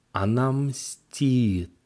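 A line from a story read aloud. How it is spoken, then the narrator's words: Drawn-out trembling young woman. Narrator (Russian): протянула дрожащим голосом девушка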